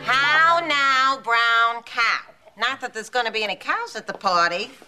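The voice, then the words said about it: Odd accent dropping R sounds. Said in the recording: “Your accent, it's so odd. ... I don't see an R coming out of your mouth.”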